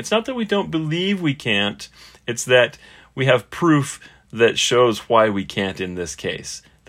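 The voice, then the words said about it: Sarcastic delivery. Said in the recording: “That's sarcasm, you guys. ... I'm being sarcastic”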